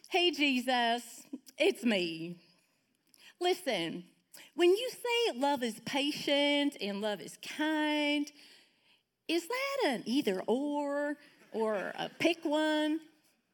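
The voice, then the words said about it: Put-on Southern accent. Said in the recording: “she's from the South, so she has an accent ... I'm going to make it try to sound um, Southern”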